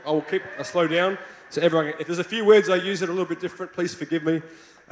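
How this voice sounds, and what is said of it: Australian accent. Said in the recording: “I hope you like my Australian accent.”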